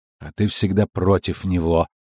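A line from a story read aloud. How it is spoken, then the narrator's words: Angry smirk. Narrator (Russian): зло усмехнулась жрица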